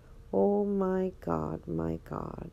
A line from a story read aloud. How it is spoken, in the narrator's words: Joseph groaned